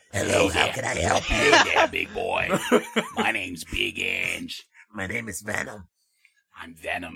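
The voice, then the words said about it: Deep smoker's voice, Brooklyn accent. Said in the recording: “this is the fucking deepest smoker you can imagine... he was from Brooklyn, I think, so he had that accent”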